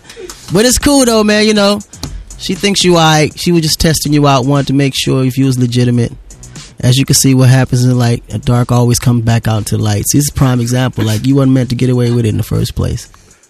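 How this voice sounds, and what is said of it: Imitates another person's voice. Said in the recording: “It's a great accent... I told you the accent wouldn't let you down... your impressions”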